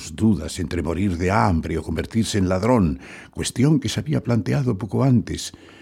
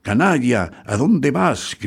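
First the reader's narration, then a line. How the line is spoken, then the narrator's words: Servant shouting. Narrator (Spanish): gritó el sirviente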